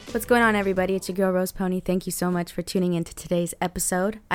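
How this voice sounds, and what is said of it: Very hoarse voice. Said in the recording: “my voice is hoarse AF”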